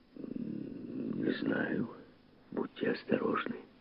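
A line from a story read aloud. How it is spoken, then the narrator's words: Distant warning whisper. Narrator (Russian): предупреждал шепот Фаббера из другого далекого мира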